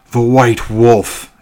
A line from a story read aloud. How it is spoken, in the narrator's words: exclaimed my father